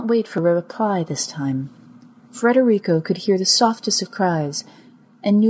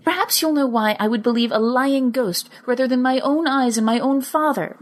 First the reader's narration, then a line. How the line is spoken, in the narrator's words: she said, her voice clearly angry